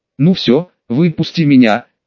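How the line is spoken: Slightly trembling voice. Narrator (Russian): чуть дрогнувшим голосом заговорил Найт

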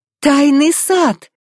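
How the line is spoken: Delighted exclamation. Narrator (Russian): Восторженно воскликнула Элла

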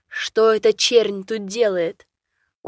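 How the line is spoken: Speaking in Navi tongue. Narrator (Russian): по навьему заговорил

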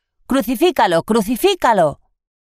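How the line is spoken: Crowd shouting. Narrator (Spanish): los sumos sacerdotes y los guardias gritaron

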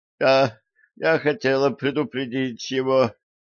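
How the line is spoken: Moaning. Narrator (Russian): простонала Лорелли

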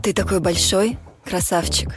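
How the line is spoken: Playful girlish voice. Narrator (Russian): произнесла девушка игривым голоском

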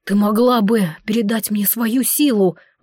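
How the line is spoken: Breathless exhale. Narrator (Russian): выдохнул Горан

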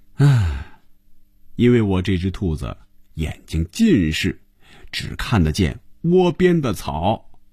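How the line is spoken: Amused, smiling remark. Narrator (Chinese): 红军笑了笑，说了一句

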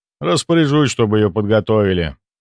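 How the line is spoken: Sigh. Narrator (Russian): вздохнул Ивар

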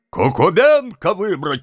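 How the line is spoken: Group shouting. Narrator (Russian): кричала часть

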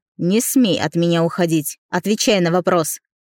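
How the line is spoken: Growled. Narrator (Russian): рыкнул

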